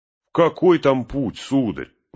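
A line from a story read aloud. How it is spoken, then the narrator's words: Exclaimed. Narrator (Russian): воскликнул Сэм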